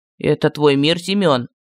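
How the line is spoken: Muffled, hollow question. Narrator (Russian): глухо спросил Мар

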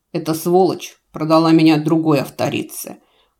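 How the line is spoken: Growling husband. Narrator (Russian): прорычал второй муж

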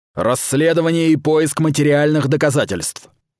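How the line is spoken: Barking commands. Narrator (Russian): Каустус лающим голосом бросал команды

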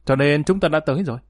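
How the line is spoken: Sharp confrontational retort. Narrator (Vietnamese): đối chọi gay gắt mà nói

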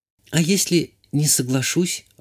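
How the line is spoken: Timid question. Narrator (Russian): робко спросила девушка

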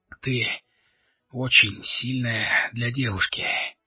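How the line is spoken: Strained words. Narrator (Russian): выдавил Алири

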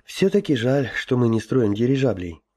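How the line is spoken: Sighing. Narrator (Russian): вздохнул Гоша

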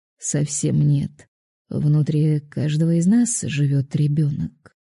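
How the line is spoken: Calm reply. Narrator (Russian): спокойно ответил Виталий

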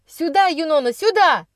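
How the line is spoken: Shouting again. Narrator (Russian): закричал снова Никс

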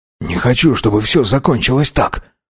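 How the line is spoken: Halting mutter. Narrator (Russian): сбивчиво пробормотал Мейсон

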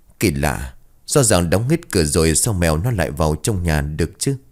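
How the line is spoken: Muttering. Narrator (Vietnamese): Chiến bấy giờ liền lẩm bẩm

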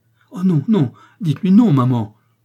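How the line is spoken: Spontaneous frightened exclamation. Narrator (French): s'écria spontanément Lise avec un petit frisson d'effroi

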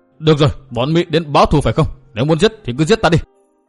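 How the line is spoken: Trembling loud shout. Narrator (Vietnamese): Long Chí Đằng run rẩy đứng không nổi, cao giọng hét

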